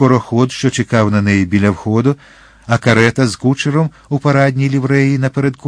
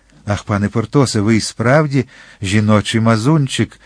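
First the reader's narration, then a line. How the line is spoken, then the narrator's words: Sighed. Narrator (Ukrainian): зітхнула дружина прокурора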